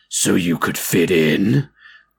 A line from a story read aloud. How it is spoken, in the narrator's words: Jeff asked in a low, almost growling voice